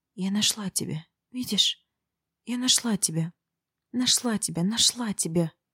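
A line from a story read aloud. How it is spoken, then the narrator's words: Whispered like an incantation. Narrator (Russian): Я шептала, как заклинание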